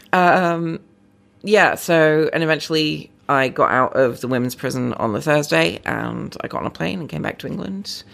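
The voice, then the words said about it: English accent, American-tinged, some Liverpool. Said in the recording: “usually my accent is sort of American tinged ... there's some Liverpoolian sneaking in as well”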